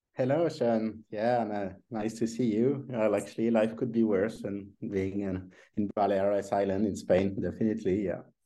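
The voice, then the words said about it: French accent. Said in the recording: “his incredible French accent”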